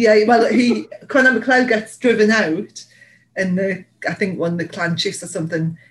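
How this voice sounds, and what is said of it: Usual voice. Nothing is said of it.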